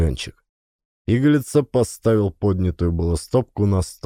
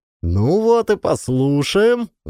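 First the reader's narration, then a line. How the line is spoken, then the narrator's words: Yelling. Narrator (Russian): заорал Ленчик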